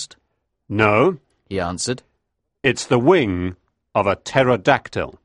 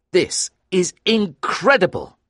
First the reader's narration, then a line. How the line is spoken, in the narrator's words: I cried, because now I really believed him